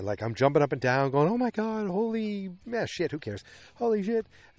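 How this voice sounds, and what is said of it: Boston accent. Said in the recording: “my Boston accent flying through”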